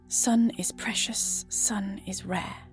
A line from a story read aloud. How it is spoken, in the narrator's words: he whispers behind his mouth cover